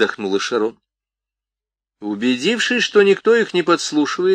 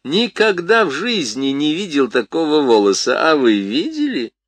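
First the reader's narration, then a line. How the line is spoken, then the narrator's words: Laughing. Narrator (Russian): Крис засмеялась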